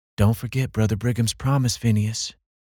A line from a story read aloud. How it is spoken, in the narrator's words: would say in her sweet voice